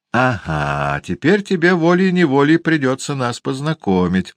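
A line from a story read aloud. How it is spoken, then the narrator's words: Laughing exclamation. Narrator (Russian): со смехом воскликнул лорд Генри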